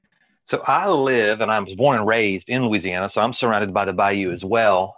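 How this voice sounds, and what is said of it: Southern American accent. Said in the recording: “particularly in the South, hence this accent that I have”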